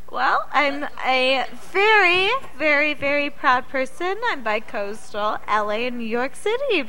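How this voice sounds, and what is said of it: New York accent. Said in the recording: “I heard that New York accent.”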